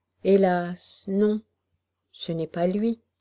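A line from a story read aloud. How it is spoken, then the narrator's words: Heavy sigh. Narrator (French): le chevalier de la Graverie avait répondu avec un gros soupir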